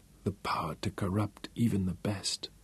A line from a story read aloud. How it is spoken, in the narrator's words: she whispered